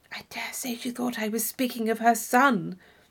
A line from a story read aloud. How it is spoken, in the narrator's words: she said in a whisper to Catherine